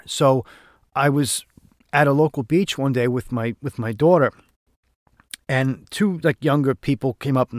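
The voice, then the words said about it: Noticeable local regional accent. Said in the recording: “that's some accent you have ... he didn't even recognize my accent as being”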